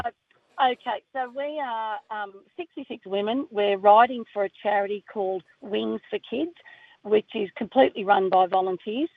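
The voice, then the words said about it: Hoarse, worn-out voice. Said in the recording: “Sorry, I'm losing my voice because I've been singing and laughing so much all week.”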